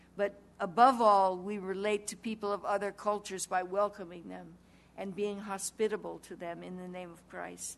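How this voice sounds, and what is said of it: New Zealand accent. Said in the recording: “your wonderful New Zealand accent”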